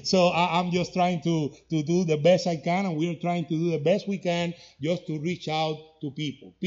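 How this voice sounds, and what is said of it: Heavy non-native English accent. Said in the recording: “with my heavy English accent”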